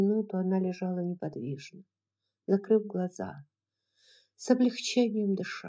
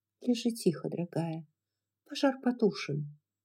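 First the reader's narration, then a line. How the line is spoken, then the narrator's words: Calm. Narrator (Russian): сказав спокойно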